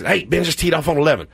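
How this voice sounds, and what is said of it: Imitates another person's voice. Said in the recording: “doing his voice to text like that, but that's how it sounds when you text ... Siri adopts his accent”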